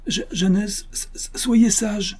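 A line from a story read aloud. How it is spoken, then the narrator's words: Pleading. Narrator (French): supplia l'innocent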